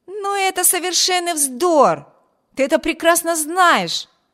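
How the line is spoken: Younger brother exclaiming. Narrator (Russian): воскликнул младший брат

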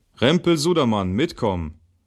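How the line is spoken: Called out. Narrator (German): rief

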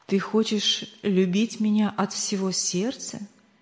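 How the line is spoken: Plain. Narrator (Russian): спросил он

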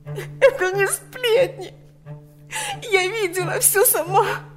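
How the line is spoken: Sobbing. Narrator (Russian): не в силах больше сдерживать рыдания

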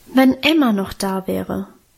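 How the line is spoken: Sighing. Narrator (German): seufzte

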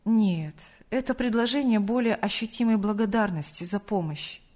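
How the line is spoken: Calm. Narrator (Russian): спокойно ответил Сергей Павлович

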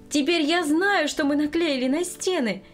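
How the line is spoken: Joyful greeting. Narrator (Russian): радостно встретила она внучку

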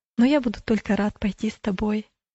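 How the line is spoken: Plain. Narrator (Russian): ответил останавливающийся

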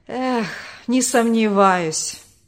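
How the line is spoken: Bitter sigh, father. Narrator (Russian): горько вздохнул отец

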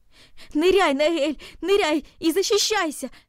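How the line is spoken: Shout. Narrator (Russian): закричал он

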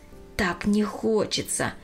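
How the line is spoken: Sighing. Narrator (Russian): вздохнула она

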